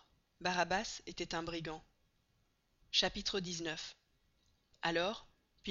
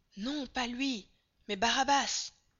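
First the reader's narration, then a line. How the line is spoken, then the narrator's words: Crowd shouting together. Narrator (French): Alors de nouveau tous s'écrièrent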